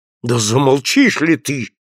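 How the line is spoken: Hissed through teeth. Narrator (Russian): прошипел сквозь зубы Поляне

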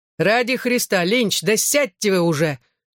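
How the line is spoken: Distant angry bark. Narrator (Russian): рявкнул из передней части автобуса мистер Малкахи

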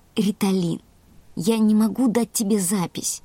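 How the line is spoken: Soft, gentle. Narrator (Russian): мягко сказал Карим

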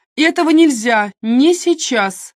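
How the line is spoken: Loud. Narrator (Russian): громко произнесла Нэнси

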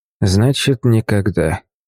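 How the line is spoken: Barely audible mutter. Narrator (Russian): еле слышно пробормотал Майкл

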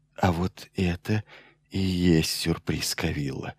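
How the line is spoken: Whisper. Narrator (Russian): наконец прошептал Майлз

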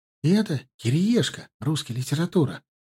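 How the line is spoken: Whispered right into ear. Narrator (Russian): прошептал мне сидевший справа Славка прямо в ухо

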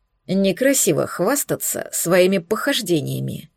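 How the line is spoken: Grumbled. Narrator (Russian): буркнул Алекс

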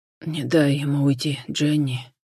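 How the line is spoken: Choking, breathless gasp. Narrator (Russian): Давясь набегающей в рот кровью, выдохнул Джон

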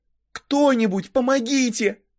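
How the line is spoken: Screamed. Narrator (Russian): закричала

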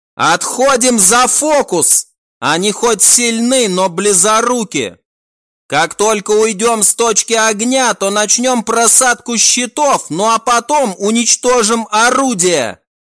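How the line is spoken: Shouting orders. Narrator (Russian): прокричала Рен своим наводчикам

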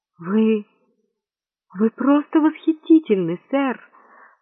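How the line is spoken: Cooing gentle female voice. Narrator (Russian): проворковал нежный женский голос

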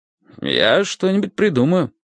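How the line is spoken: Calm. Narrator (Russian): сказал Соня спокойно

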